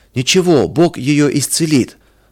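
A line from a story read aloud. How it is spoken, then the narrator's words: Half-joking shout, youth. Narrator (Russian): То ли серьезно, то ли шутя, выкрикнул кто-то из ребят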